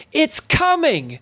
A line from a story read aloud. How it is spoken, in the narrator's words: yelled Ness at a volume that defied her minute stature